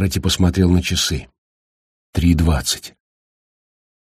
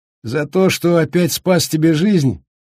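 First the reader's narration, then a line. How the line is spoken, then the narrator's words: Cheerful laughing. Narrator (Russian): весело рассмеялся Макфрайс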